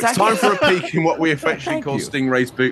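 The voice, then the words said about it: British accent. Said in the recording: “I can't do it in the British accent, so I need you to bring the heat there.”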